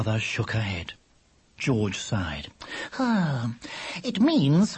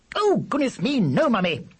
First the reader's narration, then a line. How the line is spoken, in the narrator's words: said George, a trifle sharply